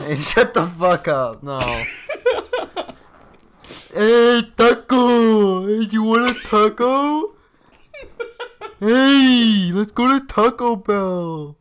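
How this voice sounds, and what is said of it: Thick put-on Mexican accent. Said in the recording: “You have a very thick Mexican accent.”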